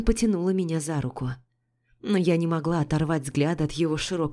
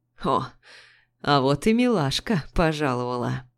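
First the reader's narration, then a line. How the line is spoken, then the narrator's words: Smirk through clenched cigarette. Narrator (Russian): хмыкнул один, сжимая сигарету зубами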